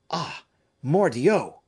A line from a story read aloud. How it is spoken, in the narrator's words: cried the suspicious spirit